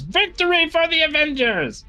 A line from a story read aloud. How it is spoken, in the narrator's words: lifts his sword triumphantly in the air and says